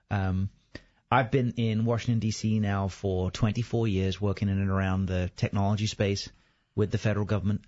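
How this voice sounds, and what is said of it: English accent from near London. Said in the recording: “that strange, funny accent ... originally from just outside London in England”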